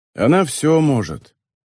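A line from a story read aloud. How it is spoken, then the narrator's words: Sighing. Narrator (Russian): вздохнул Нобуа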